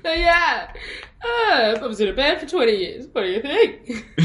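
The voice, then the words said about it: Imitates another person's voice. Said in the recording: “my really bad impression”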